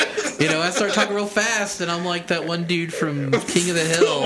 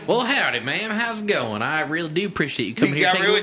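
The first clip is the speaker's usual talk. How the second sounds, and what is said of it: Fake Texas accent. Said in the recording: “your fake Texas accent”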